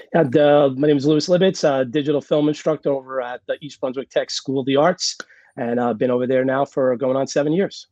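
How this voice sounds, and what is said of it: Hoarse, nearly lost voice. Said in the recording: “your voice is gone.”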